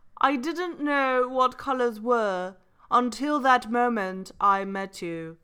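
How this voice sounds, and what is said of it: Put-on British accent. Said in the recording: “as read in a British accent. So you have to read in a British accent.”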